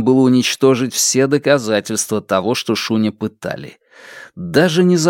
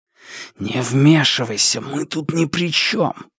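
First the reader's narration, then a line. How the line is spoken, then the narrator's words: Hiss. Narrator (Russian): прошипел он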